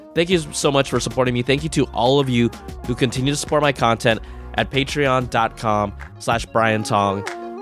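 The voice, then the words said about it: Stuffy, slightly weak voice. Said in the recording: “I know I sound a little stuffy. I know my voice sounds a little weak.”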